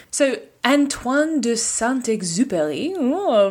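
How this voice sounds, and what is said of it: Put-on French accent. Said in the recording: “the return of the French accent, you're welcome.”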